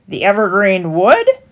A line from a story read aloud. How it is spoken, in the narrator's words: mocked the stallholder